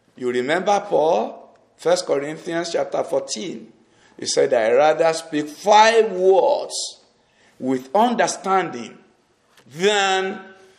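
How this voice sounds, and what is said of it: Nigerian Yoruba-accented English, slow. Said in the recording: “English is not my mother tongue. I'm a Yoruba in Nigeria, in the west of Nigeria. And we have our own accent that exacerbates our spoken English ... I will have to be very, very slow and be distinct.”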